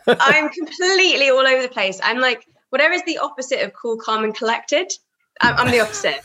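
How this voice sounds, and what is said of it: Congested voice from a cold. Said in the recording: “you can probably hear it in my voice. I've got a really bad cold.”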